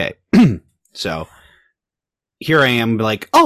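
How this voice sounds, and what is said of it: Usual voice. Nothing is said of it.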